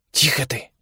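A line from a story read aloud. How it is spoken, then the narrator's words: Hoarse, low voice. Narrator (Russian): повторил тот же голос, хриплый и низкий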